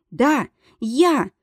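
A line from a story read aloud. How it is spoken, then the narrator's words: Breathless gasp. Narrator (Russian): выдохнула она, сгибаясь пополам и пытаясь восстановить дыхание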